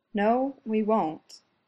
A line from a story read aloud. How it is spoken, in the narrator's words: he says quietly